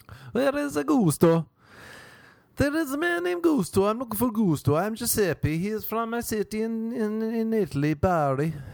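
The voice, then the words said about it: Put-on Italian accent. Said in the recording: “Maybe it's an Italian accent.”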